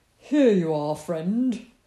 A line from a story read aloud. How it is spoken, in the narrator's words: said Badger merrily